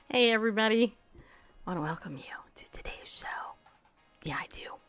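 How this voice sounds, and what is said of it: Whispering. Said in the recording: “Might want to know why I'm whispering. Do I sound like I'm whispering to you guys?”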